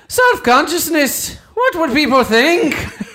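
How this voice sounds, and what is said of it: Good put-on Irish accent. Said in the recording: “That's a pretty good Irish accent. That's a pretty good accent.”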